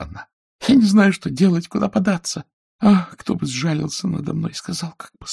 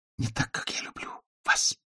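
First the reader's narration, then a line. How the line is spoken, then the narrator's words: Whisper. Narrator (Russian): прошептала она снова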